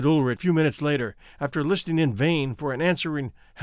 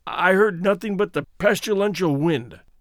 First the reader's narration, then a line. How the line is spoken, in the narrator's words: said George, hoarsely